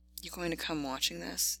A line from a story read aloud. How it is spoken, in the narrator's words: panted